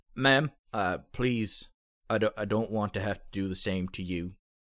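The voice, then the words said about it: Character voice with a different accent. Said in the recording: “I think this is a different accent”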